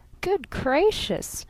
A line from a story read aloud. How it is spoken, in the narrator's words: giggled Miss Von Eaton